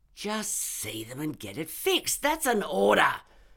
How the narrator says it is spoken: Stainless snarled

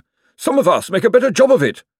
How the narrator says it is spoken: snapped Josephine

